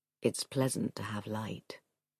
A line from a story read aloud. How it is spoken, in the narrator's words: he said in the soft but deep voice which perturbed her